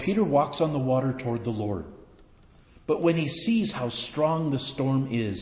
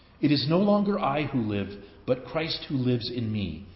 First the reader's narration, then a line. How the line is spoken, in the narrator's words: says St